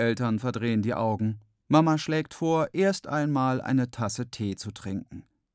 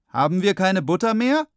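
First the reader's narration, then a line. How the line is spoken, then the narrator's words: Calling out. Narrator (German): ruft er Mama zu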